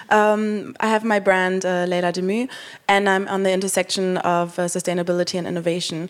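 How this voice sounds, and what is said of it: Hoarse, nearly lost voice. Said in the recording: “my voice is lost since last week”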